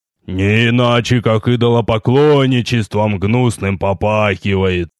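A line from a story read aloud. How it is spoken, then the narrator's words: Grumpy hoarse grumble. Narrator (Russian): Сварливо проворчал хриплый голос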